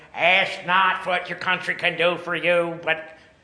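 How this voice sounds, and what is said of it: Imitates another person's voice. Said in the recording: “to do a JFK impression ... You pulled your lip over your front teeth”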